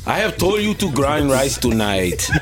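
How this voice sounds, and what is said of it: Exaggerated Nigerian accent. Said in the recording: “My terrible ... Nigerian ... Accent.”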